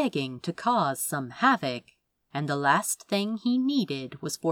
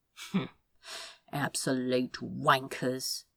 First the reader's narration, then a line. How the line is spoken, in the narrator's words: he muttered